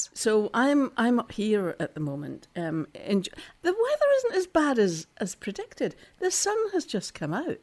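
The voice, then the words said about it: Scottish accent. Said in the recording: “I'm still in Scotland ... I've got history. You can tell by my voice, can't you?”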